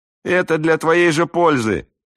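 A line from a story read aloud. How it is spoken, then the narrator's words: Shout from a crowd. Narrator (Russian): крикнули из толпы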